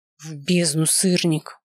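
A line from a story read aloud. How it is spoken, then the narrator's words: Growling. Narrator (Russian): С моих губ сорвалось рычание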